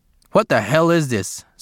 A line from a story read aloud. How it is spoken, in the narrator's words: Sergeant Curtis growled